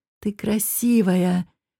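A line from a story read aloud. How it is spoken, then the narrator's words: Whisper. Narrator (Russian): шептал этот хищник пустыни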